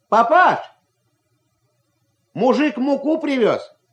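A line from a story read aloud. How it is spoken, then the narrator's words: Shouting. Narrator (Russian): крикнул Ваня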